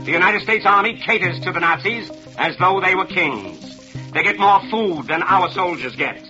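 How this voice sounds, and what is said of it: Nasal, rapid telegram-style radio delivery. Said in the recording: “He spoke like he was on a telegram ... And he spoke in this funny nasal voice ... Oh my God, that's exactly what it sounds like. A radio dispatch”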